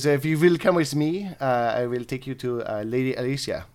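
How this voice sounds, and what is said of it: Bad put-on French accent. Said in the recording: “We're going to give him a French accent ... they're going to be really bad French accents”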